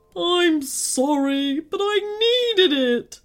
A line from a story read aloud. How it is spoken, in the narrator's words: sobbed the giant